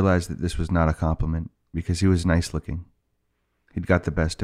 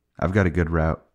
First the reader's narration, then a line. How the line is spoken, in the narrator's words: he said, yawning